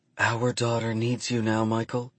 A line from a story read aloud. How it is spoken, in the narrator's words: she whispers